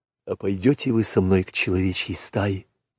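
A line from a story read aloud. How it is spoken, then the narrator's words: Whisper. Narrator (Russian): прошептал Маугли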